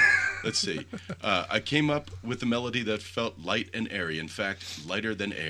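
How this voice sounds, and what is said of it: Usual voice. Nothing is said of it.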